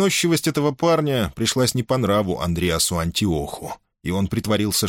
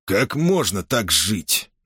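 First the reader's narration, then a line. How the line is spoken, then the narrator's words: Displeased grumble. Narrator (Russian): недовольно буркнул спартанец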